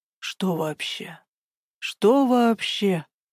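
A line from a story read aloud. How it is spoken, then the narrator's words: Indignant whisper. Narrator (Russian): Возмущенным шепотом откликнулся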